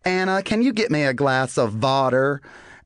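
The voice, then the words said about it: Mock German accent, country twang. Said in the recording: “we were changing the W's to V's, but still talking super country ... Germans, they replace their W's with V's. And so therefore, that's our accent.”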